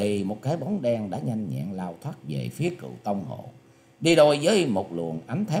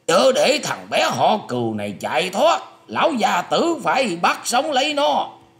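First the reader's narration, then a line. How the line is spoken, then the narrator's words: Loud shout. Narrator (Vietnamese): có tiếng quát to lên rằng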